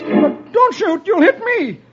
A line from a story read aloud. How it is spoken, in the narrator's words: he whines